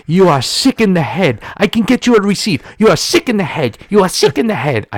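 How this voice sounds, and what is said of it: Put-on foreign accent, yelling. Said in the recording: “I have no idea where this guy is from. So please forgive the accent.”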